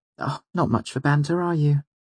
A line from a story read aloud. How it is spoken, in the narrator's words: She said, giving a brief, disappointed sigh